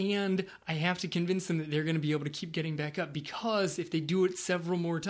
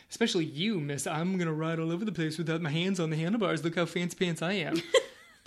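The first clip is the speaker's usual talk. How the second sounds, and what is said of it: Imitates another person's voice. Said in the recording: “that was my Angie impression ... That was a terrible Angie impression.”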